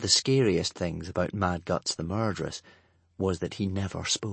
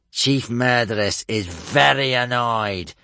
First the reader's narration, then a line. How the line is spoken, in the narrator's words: spat Gumboyle at the silent murderous warriors gathered all around